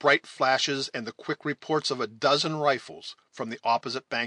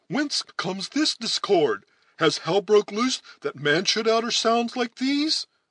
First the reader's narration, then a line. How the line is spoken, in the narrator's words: exclaiming